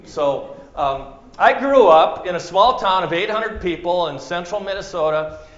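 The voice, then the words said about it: Minnesotan accent. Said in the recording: “I've been told I still have a bit of an accent. I'm a Norwegian German... But I'm told I have a bit of an accent. If I say Minnesota, then I guess you hear it.”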